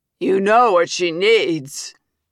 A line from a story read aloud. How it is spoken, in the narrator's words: says another voice, trailed by lewd laughter